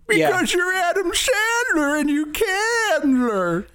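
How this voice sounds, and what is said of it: Imitates another person's voice. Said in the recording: “That's a good impression. ... No, nope. ... It wasn't. It was not good.”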